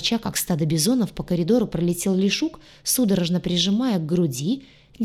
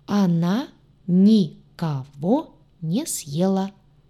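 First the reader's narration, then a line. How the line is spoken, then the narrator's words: Clipped, syllable by syllable. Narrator (Russian): По слогам отчеканил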